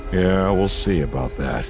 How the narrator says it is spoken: Han muttered

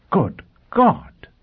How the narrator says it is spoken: Pristine exclaimed again

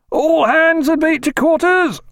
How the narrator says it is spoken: roared

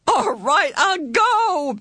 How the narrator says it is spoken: Meg sobbed

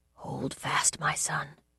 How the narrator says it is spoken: whispered

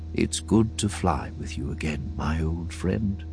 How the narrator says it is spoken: the old man said so softly, Han wasn't sure he had heard him right

